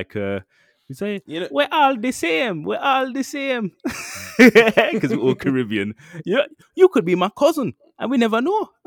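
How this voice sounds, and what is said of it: Poorly imitated accent of another person. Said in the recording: “Oh man, I'm butchering his accent”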